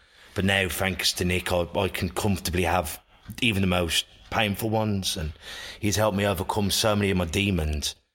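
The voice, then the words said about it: Black Country English accent. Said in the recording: “That's my accent. ... Black Country.”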